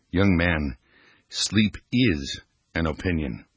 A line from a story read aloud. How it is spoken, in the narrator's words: quietly countered